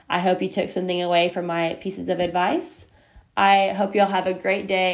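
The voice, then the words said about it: Crackly voice, very fast talking. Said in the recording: “I am talking super duper fast ... I'm a very fast talker ... sorry for my voice. My allergies are starting to get pretty bad right now, so my voice is kind of going in and out and kind of crackly and yucky”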